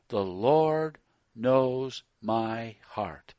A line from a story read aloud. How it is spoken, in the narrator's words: with a sanctimonious look, said slowly